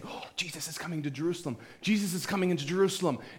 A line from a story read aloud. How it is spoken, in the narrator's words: People started whispering and saying